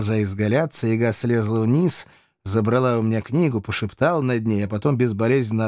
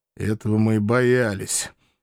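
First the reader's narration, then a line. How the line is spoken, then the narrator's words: Muttered under breath. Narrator (Russian): Под нос буркнул я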